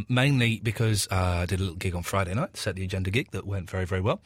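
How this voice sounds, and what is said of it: Hoarse, strained voice. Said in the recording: “Got a little bit of a sore throat. Losing my voice a little bit ... the voice is always the first thing to go for me”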